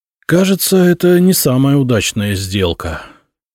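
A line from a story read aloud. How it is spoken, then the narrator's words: Sighing. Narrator (Russian): вздохнул Миша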